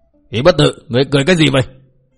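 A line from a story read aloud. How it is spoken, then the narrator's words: Angry shouted question. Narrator (Vietnamese): Bao Đà Thắng giận dữ quát hỏi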